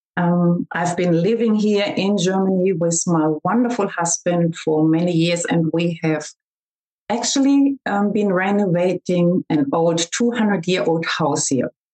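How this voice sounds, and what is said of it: German accent. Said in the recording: “I hope you can understand my German accent.”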